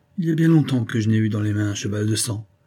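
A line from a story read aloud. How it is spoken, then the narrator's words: Murmured. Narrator (French): murmura Rocambole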